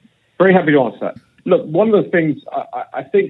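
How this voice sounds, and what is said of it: Usual voice. Nothing is said of it.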